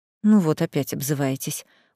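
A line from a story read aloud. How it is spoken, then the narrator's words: Weary sigh. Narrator (Russian): устало вздохнул мужчина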